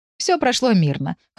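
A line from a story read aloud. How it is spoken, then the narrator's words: Snorting. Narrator (Russian): хмыкнула Света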